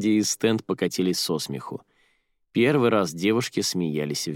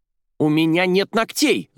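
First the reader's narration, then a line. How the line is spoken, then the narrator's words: Angry shout. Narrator (Russian): злобно закричала Арадия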